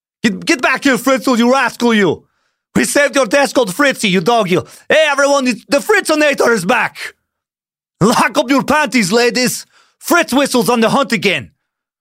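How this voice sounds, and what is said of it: Put-on Austrian accent, bodybuilder-style. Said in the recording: “the only Austrian accent I can do is kind of Schwarzeneggery. It's a knockoff of the characters of Hans and Franz. ... Yeah, it's little Schwarzeneggery as well.”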